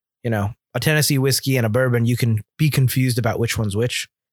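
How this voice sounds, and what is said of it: Put-on Irish accent. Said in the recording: “Did you get stuck in your accent or was that on purpose? ... I'm getting stuck a little bit in the accent sometimes ... the Irish accent's really fun ... it's so close to the English accent though that sometimes you're going to slip into the English one”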